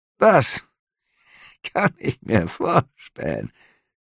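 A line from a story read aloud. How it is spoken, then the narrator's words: Innkeeper giggling. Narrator (German): der Wirt kicherte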